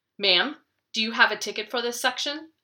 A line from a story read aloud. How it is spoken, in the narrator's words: a female attendant asked sharply